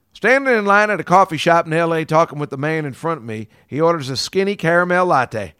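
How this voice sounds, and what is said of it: Put-on accent. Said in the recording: “let me do it with the accent”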